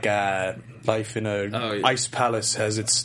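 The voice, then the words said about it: Bad put-on British accent. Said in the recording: “is that your Bond voice, your Clive Owen voice, or your Dire Straits voice? ... It's my British character voice ... Yeah, it's pretty bad.”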